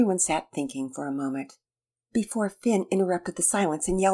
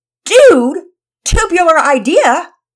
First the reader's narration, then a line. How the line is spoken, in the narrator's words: shouted